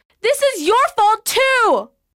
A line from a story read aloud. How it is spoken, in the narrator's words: shouted Kat